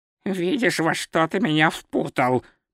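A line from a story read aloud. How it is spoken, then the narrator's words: Hissed. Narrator (Russian): прошипел Ринсвинд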